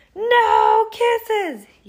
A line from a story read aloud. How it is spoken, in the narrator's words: yelled Bernard